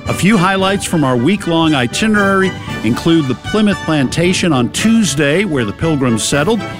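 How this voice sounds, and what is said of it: Boston accent. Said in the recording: “That's right, it's a Boston accent.”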